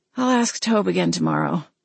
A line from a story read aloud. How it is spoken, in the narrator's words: I murmured, resting my head on my pillow